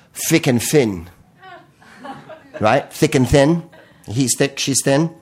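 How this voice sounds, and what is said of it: Put-on London accent. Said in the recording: “I'm going to do it with a London accent”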